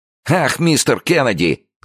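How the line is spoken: Shouting with loud laughter. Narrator (Russian): закричал громко хохоча Джо

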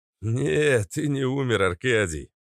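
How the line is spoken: Laughing. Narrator (Russian): рассмеялся Ник

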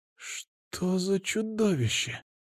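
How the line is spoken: Whisper over neural link. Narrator (Russian): прошептала Кира, хотя говорила по нейронной связи

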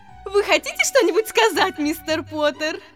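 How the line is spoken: Cheerful woman's question. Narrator (Russian): Осведомилась женщина так радостно, словно они были не на суде

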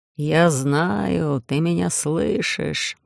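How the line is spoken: Booming distorted voice. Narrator (Russian): прогудела земля искаженным голосом предателя

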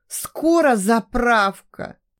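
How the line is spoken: Moaning. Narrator (Russian): простонала она

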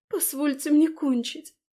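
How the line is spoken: Sobbing. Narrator (Russian): всхлипываю я

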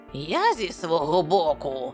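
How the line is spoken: Crackling, querulous tone. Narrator (Ukrainian): зауважив Саммерлі своїм тріскучим, сварливим тоном

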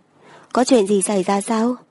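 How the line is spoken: Concerned question. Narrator (Vietnamese): Tiểu Tư Đồng phát giác âm thanh của nàng có chút run rẩy, liền hỏi

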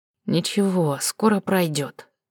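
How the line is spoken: Quiet comforting. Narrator (Russian): утешил негромко

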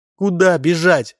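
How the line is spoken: Sobbing. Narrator (Russian): зарыдала невеста

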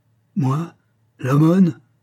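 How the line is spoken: Exasperated cry. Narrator (French): s'écria l'homme exaspéré

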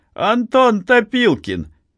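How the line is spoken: Clear, distinct shout. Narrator (Russian): высокий человек совсем другим голосом, отчетливым и ясным, крикнул

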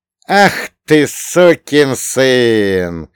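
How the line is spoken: Loud laughter. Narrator (Russian): Йоль громко рассмеялся

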